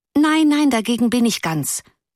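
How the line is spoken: Pitying call. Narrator (German): rief eine andere in mitleidigem Ton

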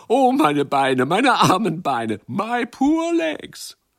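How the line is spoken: Laughing calls. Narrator (German): Sie lachten und riefen

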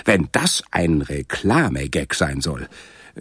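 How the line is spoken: Lieutenant hissing. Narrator (German): zischte der Lieutenant

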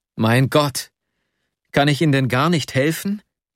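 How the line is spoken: Desperate cry. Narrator (German): rief ich ganz verzweifelt

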